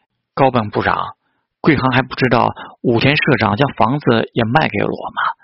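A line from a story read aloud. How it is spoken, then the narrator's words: Plain. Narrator (Chinese): 高本久信跟他说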